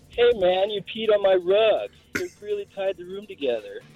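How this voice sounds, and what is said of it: Weak impression of The Dude. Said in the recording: “celebrity impression ... it's the dude, but I mean, that's you sounded like Steve saying that to somebody in the background”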